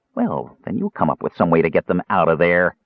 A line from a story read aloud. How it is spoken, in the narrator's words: the jailer sneered